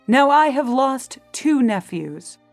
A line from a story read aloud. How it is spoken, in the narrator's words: The Duke of Berry cried